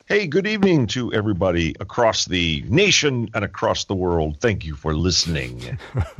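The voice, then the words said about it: Dramatic radio announcer voice. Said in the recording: “That's dramatic. ... I had to turn my radio voice on”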